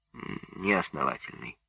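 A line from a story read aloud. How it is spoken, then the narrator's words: Grumbling. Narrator (Russian): буркнул Лядов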